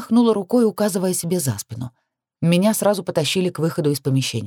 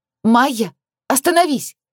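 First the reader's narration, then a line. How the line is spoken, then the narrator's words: Shouted. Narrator (Russian): прокричала я ей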